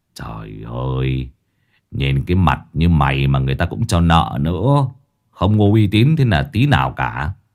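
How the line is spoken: Sighing. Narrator (Vietnamese): Lão Năm thở dài

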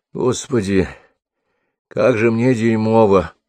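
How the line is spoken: Groaning. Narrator (Russian): простонал он

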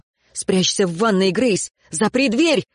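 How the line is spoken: Shout. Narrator (Russian): крикнул он

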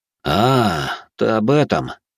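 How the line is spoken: Sighing. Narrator (Russian): Алекс вздохнул

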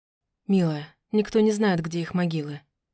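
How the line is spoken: Quiet. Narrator (Russian): тихо сказал Альвир

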